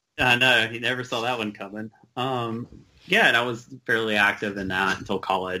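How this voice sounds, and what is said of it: Noticeable Southern regional accent. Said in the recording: “It's going to be a shock for everybody listening with my accent, but I grew up in a Southern Baptist church”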